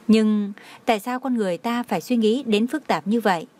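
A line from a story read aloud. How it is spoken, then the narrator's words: Smiling. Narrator (Vietnamese): Ân Nguyệt Dung mỉm cười nói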